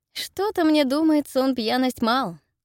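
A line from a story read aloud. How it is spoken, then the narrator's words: Giggling, unusually high voice. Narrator (Russian): говорю я, хихикая, и мой голос звучит почему-то так высоко, что я сама его не узнаю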